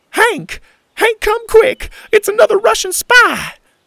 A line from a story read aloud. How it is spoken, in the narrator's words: cried the little old lady in the neighboring backyard